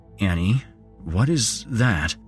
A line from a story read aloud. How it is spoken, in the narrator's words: He asked nervously